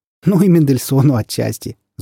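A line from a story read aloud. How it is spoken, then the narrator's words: Laughing. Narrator (Russian): засмеялась Гуля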